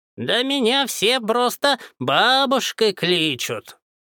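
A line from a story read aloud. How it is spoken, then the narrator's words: Creaky old woman's voice. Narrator (Russian): проскрипела старуха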